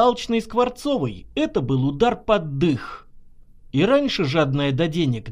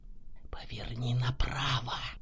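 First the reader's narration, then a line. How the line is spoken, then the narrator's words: Insinuating inner whisper. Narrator (Russian): прошептал вкрадчивый голос в голове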